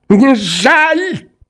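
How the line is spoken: Trembling shout. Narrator (Russian): закричал он, задрожав и побледнев

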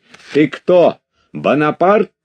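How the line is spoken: Shouting. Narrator (Russian): кричал Макар Алексеевич

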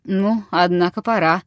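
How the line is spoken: Businesslike, almost bored. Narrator (Russian): промолвил он каким-то деловым, почти скучливым тоном

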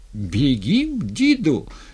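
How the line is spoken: Loud, unpleasantly cheerful question. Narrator (Russian): с нехорошей веселостью громко спросил Степан деда

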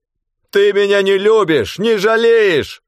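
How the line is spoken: Loud. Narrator (Russian): сказал он громко

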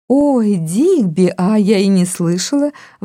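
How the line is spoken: Exclamation. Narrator (Russian): воскликнула она

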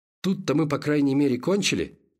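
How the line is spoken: Irritated question. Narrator (Russian): раздраженно спросил фельдшер

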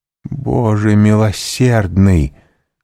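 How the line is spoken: Exclamation. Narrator (Russian): воскликнула она

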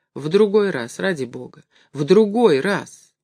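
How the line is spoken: Pleading voice. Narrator (Russian): Горбун умоляющим голосом сказал

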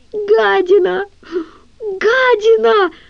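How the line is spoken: Anguished howl. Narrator (Russian): взвыл Гриша

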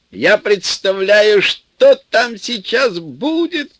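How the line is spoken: Shouting from afar. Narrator (Russian): кричал из кузова Саша

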